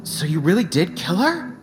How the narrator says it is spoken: exclaimed Ajax

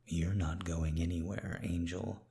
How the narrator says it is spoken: said quietly

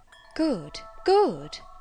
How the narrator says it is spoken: she exclaimed, while her dark and deep eye sparkled

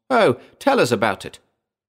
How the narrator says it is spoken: Several women exclaimed at once

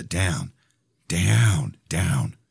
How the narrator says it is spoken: Under my breath, said

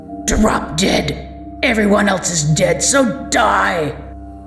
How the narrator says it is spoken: snarling

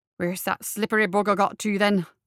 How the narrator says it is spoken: muttered to himself

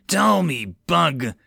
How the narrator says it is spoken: growled, tantrum

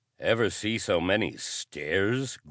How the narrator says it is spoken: grunted Nelson

